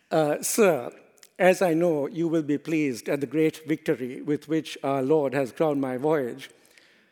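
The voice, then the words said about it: Put-on Spanish accent. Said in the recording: “let me attempt to mimic, I suppose, a Spanish accent.”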